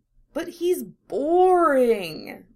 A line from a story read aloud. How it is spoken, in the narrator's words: she whines